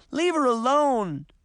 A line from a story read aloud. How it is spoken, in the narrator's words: Daphne pleaded